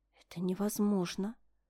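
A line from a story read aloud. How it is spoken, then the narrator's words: Near whisper. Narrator (Russian): ответила почти шепотом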